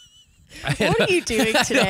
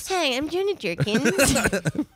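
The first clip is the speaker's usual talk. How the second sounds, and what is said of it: Whiny imitation of another person's voice. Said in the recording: “Do I really sound like that? ... You're very whiny.”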